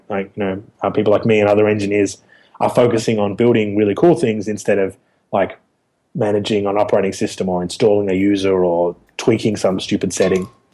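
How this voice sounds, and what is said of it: Slightly raspy voice. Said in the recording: “I, have a bit of the flu ... my voice was a bit raspy, ... I'm recovering from a head cold”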